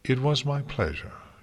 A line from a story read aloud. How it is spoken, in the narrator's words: she said calmly